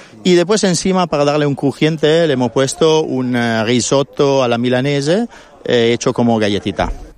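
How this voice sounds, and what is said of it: Italian accent speaking Spanish. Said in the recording (Spanish): “Con ese acento italiano es como que entra mejor”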